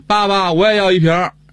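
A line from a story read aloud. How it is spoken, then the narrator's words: Child shouting. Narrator (Chinese): 你这孩子也喊着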